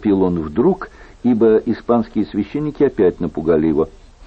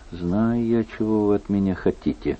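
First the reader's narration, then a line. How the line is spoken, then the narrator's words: Mutter. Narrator (Russian): бормотал он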